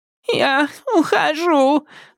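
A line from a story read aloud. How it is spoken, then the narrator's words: Sobbing, childlike. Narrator (Russian): заявила женщина, всхлипнув, словно ребенок, которого оставили вне игры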